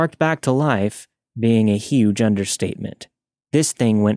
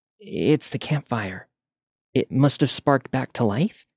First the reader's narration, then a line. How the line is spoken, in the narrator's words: After a moment of shock, Katie whispered